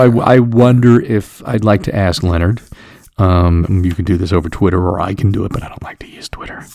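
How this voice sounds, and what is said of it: Usual voice. Nothing is said of it.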